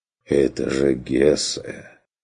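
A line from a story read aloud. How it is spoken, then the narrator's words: Heavy sigh, half-whisper. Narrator (Russian): Тяжело вздохнул он, легко узнаваемым полушепотом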